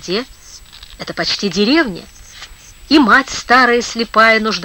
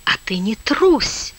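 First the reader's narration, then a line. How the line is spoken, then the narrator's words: Demon whispering. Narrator (Russian): нашептывал бес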